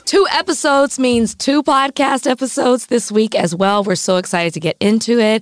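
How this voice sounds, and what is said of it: Hoarse voice. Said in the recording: “As you can tell from my voice, I'm still hoarse”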